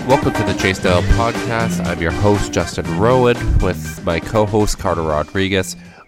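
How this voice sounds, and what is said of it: Congested, rough, sick-sounding voice. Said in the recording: “If I sound like crap, it's because I have a cold ... Is it ... or Eeyore? ... This sounds horrible.”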